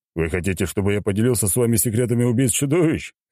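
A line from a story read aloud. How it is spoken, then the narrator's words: Chuckling. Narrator (Russian): хохотнул я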